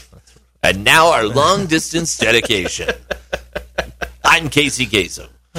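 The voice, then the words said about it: Imitates another person's voice. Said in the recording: “that a lost impression?”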